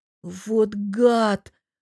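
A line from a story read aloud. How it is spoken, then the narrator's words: Growl. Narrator (Russian): прорычала София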